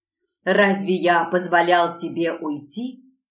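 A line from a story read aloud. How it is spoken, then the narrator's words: Growled right in ear. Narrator (Russian): прорычал он прямо в мое ухо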